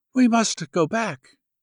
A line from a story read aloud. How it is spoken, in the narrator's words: she sighed and said